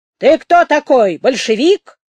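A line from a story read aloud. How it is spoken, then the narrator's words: Shouted. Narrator (Russian): крикнул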